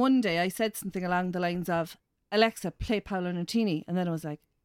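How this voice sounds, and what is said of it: Usual voice. Nothing is said of it.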